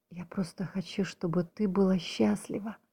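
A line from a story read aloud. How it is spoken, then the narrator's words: Whispered male reply. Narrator (Russian): Также шепотом ответил он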